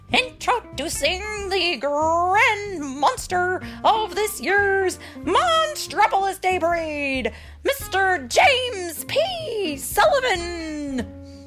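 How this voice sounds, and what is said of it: Announcer voice. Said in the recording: “put on his best announcer voice.”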